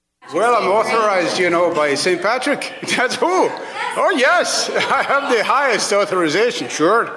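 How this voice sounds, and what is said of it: Bad put-on Irish accent. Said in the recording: “attempting the worst Irish accent in modern history”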